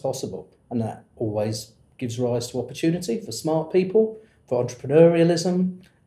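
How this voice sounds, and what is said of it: Lingering British accent. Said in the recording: “you can tell by the lingering accent that you grew up in the UK”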